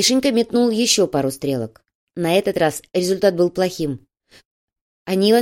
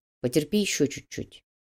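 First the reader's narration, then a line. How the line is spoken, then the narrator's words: Quiet speech. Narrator (Russian): негромко произнес Макс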